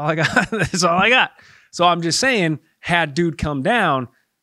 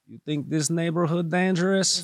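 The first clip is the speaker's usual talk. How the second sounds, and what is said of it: Put-on Eastern European accent. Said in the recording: “You get in that Eastern part of Europe and they sound like they're about that business ... I like that accent.”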